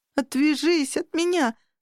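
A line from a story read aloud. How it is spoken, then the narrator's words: Pleading. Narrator (Russian): взмолился Робби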